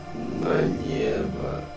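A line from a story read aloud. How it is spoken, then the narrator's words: Deeply sorrowful voice. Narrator (Russian): бесконечно печальным голосом докончил Вельзевул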